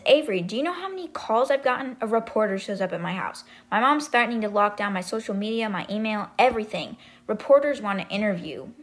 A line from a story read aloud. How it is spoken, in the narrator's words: Avery said